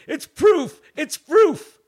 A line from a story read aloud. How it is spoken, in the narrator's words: I was yelling